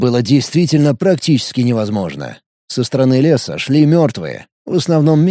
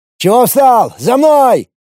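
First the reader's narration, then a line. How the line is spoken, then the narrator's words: Shouted. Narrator (Russian): выкрикнул Пимен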